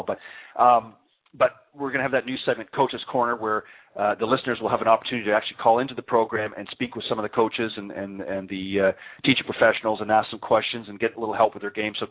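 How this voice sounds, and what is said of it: Talking very fast. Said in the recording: “I'm talking so fast”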